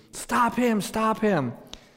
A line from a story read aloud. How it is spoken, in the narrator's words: she's yelling to the employee that was helping me